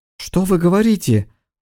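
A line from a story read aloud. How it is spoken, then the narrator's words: Exclaimed. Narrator (Russian): воскликнула Герда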